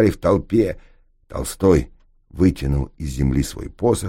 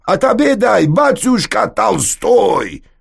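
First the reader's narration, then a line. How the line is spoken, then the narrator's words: Shouted out. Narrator (Russian): выкрикнул купец-грузин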